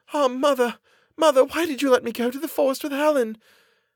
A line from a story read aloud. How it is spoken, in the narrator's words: she exclaimed